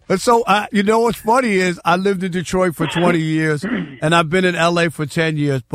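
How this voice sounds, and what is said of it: New York accent. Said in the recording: “I love your accent being from out east ... You think I'm from New York? ... It sounds like my cousin Vinny ... the New York accent just won't go anywhere.”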